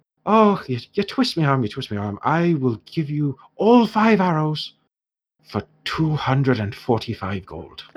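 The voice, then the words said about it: Put-on Irish accent, character voice. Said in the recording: “Talison used to be far more Scottish, but I've gone entirely Irish now ... I can't get to a Scottish accent today, so this is what you get ... Broadly Celtic”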